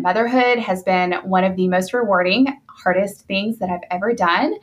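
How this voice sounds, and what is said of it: Southern US accent. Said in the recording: “You can hear in my voice that we are in the South.”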